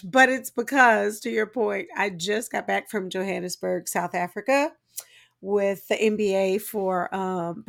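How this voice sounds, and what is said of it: Low sultry late-night radio voice. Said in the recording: “I'm not trying to give you a sexy voice ... It's giving sexy radio. ... Slow jams voice. ... like midnight. ... Midnight jams.”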